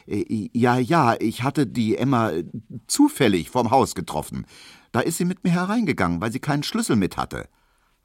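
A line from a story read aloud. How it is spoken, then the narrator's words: Hesitant. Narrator (German): sagte Emil Kubinke zögernd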